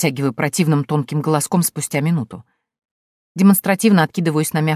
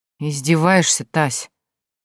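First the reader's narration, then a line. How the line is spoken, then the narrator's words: Weary sigh. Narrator (Russian): Устало вздыхает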